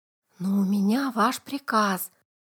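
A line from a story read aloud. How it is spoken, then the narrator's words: Whispered prompting. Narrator (Russian): шепотом подсказал бравому капитану боцман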